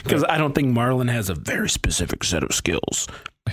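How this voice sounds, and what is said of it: Imitates another person's voice. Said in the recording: “That was a terrible, that was terrible impersonation. I don't know what just happened to my voice.”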